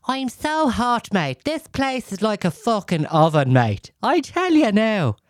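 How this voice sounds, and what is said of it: Unidentified put-on accent. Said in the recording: “I don't know what fucking accent I'm doing there”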